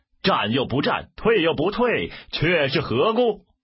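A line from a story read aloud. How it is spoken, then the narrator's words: Shouting. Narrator (Chinese): 喊声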